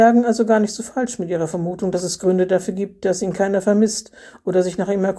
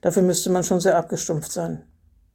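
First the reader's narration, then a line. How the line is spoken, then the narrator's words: Dry. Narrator (German): sagte er trocken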